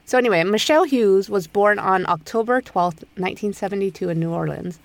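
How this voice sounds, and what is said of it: Hoarse, lower-sounding voice. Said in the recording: “I have like a cold or allergies or something ... something's going on in my throat ... my voice is a little hoarser than usual. Sound a little more like a boy than usual.”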